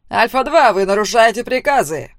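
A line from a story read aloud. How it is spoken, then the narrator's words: Barked. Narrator (Russian): рявкнул его командир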